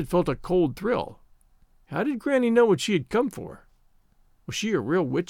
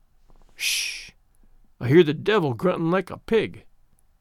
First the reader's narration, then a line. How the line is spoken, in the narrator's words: muttered Granny, looking very impish